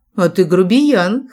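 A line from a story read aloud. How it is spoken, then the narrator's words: Scoffing snort. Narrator (Russian): хмыкнула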